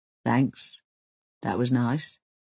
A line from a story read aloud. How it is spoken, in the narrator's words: mumbles